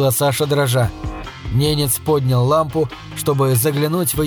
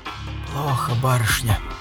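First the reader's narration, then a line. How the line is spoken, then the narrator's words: Quiet and gloomy. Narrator (Russian): тихо и мрачно сказал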